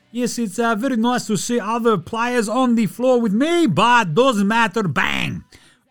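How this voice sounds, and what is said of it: Mock Serbian accent imitating Jokic. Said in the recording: “I don't know what that accent was. Hello, it's Serbian, yes.”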